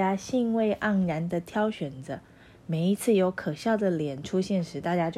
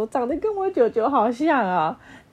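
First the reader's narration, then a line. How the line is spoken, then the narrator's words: Loud laughing. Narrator (Chinese): 有人在下面大笑说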